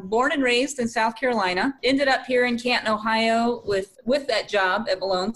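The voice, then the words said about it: Slight Southern American accent. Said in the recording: “I sensed a little southern accent.”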